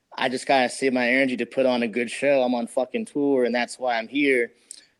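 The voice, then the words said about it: Tired-sounding voice. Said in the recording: “I know my voice is tired.”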